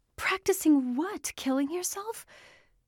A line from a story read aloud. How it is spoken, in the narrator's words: Her voice sounded hysterical, even to herself